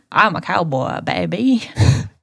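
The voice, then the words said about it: Bad put-on cowboy Texas accent. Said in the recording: “We're cowboys now ... I am from Texas. Why is that accent so bad all of a sudden?”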